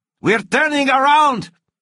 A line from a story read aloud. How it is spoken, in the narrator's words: Javi shouted